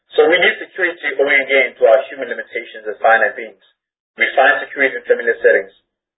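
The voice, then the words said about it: Speaks with a noticeable accent. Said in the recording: “so that you guys can understand my accent”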